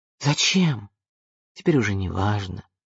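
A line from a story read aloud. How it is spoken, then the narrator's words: Sighing. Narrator (Russian): вздохнул он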